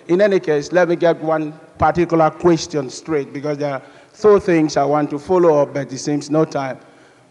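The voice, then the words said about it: Noticeable non-native accent. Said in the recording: “Following my accent, a lot of people may not understand what I'm saying”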